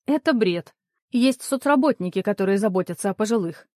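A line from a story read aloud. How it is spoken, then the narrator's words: Sharp reply. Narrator (Russian): резко ответила Светлана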